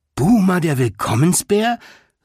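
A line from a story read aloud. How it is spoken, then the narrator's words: Delighted call. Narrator (German): rief June erfreut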